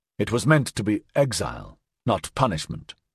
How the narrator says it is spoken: Axford said sharply

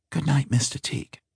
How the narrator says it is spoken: her voice whispered out of the dark

